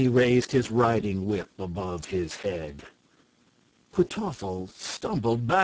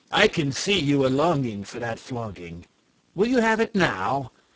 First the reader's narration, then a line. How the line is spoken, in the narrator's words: exclaimed Nerle